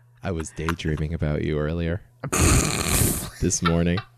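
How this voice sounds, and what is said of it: Sexy, seductive reading voice. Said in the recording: “in your sexy voice”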